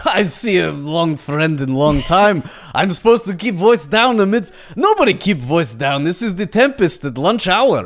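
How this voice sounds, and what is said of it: Exaggerated action-movie Russian accent. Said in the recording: “I rolled a Russian accent, by the way. ... I rolled on the table says action movie extra Russian accent.”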